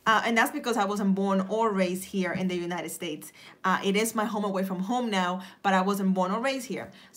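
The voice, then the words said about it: Noticeable foreign accent. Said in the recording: “there's a little bit of an accent or a thick accent”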